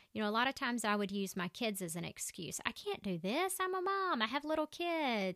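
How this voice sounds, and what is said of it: Strong Southern US accent. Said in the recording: “My accent is so crazy southern, people won't be able to understand me.”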